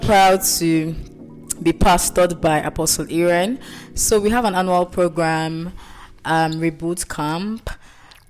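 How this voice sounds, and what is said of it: Slightly husky voice. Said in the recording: “my voice is a bit husky because, you know, we had to reboot. We had to catch fire. ... a broken voice”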